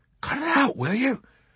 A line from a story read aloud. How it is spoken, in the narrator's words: Nately warned in a fierce whisper